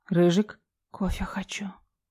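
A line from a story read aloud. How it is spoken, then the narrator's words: Private whisper. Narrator (Russian): прошептала я, чтобы никто, кроме него, не услышал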